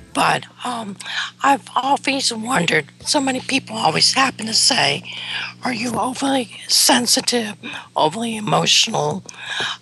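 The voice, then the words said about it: Hoarse, strained voice. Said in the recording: “I'm still recovering from my laryngitis”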